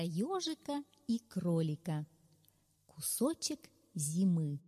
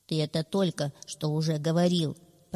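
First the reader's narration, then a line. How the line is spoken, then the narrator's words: Grumbling hedgehog. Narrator (Russian): пробурчал ежик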